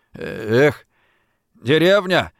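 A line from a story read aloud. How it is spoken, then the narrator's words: Grumbled. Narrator (Russian): проворчал кто-то рядом с ним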